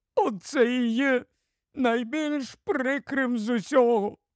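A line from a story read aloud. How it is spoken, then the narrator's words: Groaning. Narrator (Ukrainian): простогнав Тумнус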